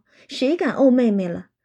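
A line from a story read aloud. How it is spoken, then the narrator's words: Laughing through tears. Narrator (Chinese): 宝玉一面拭泪，一面笑道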